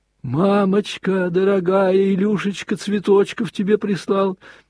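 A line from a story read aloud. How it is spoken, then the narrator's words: Shout. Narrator (Russian): прокричал он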